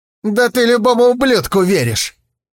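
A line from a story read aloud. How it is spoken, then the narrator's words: Snapped. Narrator (Russian): огрызнулся тигр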